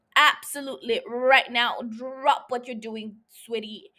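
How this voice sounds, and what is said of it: Put-on accent. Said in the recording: “I don't know why I'm I'm doing an accent.”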